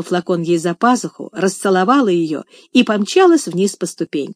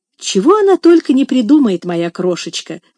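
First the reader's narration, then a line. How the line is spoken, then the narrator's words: Exclaiming. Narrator (Russian): воскликнула няня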